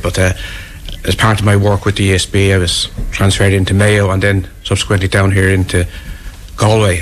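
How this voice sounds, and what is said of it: Dublin Irish accent. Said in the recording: “I'm a dub, as you guess from my accent”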